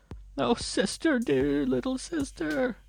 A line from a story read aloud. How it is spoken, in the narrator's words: she sobbed as she half-walked, half-ran